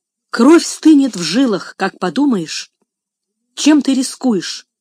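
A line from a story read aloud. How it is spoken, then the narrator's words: Exclaimed. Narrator (Russian): воскликнул мистер Вилсон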